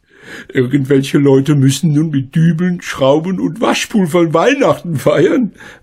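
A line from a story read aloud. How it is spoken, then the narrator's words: Laughing. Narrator (German): lachte Frau Schmidt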